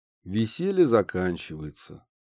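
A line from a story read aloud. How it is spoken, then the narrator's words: Sighing, trembling. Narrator (Russian): вздохнул Афанас, вздрогнув всеми частями тела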